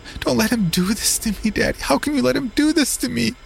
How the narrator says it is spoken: she squealed

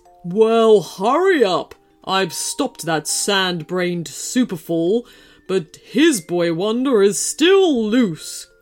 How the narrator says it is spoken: grumbled the wolf

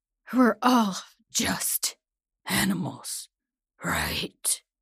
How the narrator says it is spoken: My last few words came out as a growl that morphs into a howl

